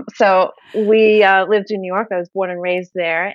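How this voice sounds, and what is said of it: Brooklyn New York accent. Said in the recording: “I'm from Brooklyn, if you haven't gathered yet from the accent.”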